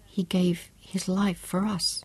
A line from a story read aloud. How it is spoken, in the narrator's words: she said quietly